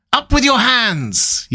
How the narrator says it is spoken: yelled a savage voice

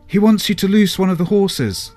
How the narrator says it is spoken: Thelonious conveyed to Crumb, now shouting

